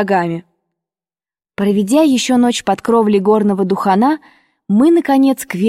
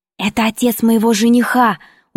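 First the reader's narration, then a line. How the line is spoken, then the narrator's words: Quick whisper. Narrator (Russian): успела мне шепнуть Белла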